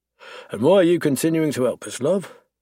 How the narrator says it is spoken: She sighs

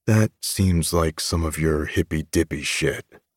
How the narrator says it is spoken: I mutter

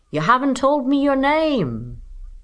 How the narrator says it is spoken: yelled the man

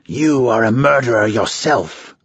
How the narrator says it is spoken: the red-robed Garrosh snarled

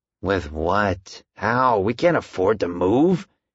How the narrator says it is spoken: he hissed

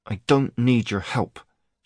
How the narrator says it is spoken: she said through gritted teeth

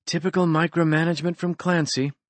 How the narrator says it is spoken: she muttered

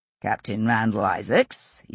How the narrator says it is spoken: he said in acknowledgement rather coldly

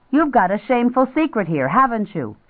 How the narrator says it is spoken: She yelled

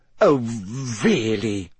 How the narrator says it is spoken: she sputtered, going rather red

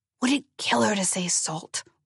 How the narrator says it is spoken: Walter hissed

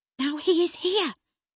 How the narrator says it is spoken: I exclaimed

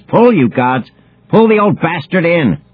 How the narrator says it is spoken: she screams

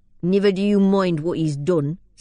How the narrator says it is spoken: said Dagley more fiercely

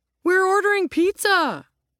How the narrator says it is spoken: Ro cried

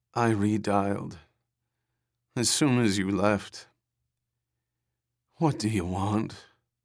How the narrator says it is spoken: Her voice sank into a dreary drone of despond

